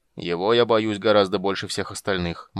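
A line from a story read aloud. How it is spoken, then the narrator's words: Gloomy king summarizing. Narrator (Russian): мрачно резюмировал король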